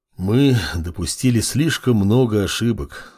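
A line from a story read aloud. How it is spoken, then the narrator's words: Dark deity sighing. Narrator (Russian): вздохнуло темное божество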